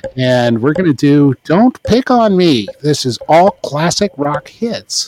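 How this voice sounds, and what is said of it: AM radio announcer voice. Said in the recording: “Try to do my AM radio voice ... This is my AM radio voice.”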